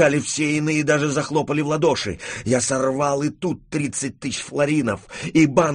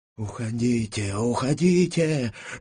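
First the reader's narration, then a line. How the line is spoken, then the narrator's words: Unknown whisper. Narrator (Russian): шептал мне чей-то голос справа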